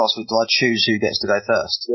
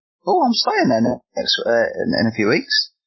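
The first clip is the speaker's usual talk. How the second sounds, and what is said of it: Voice goes suddenly high-pitched. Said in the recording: “my voice went really high then”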